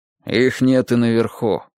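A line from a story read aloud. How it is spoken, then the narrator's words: Gruff mutter. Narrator (Russian): буркнул он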